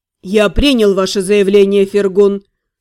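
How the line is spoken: Calm. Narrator (Russian): спокойно говорил Лорлен

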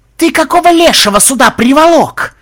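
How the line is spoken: Yelling in face. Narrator (Russian): заорал он ему в лицо

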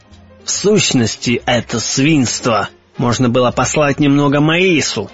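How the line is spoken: Muttered through teeth. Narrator (Russian): пробормотал сквозь зубы Мишель Ардан

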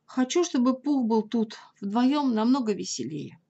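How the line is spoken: Deep sigh, then speaking. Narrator (Russian): очень глубоко вздохнул и сказал

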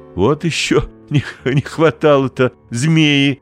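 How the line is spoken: Laughing. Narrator (Russian): засмеялась Кирилл

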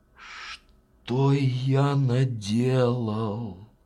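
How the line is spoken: Sigh. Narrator (Russian): вздохнул он

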